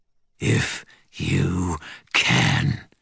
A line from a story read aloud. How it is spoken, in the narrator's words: he snarled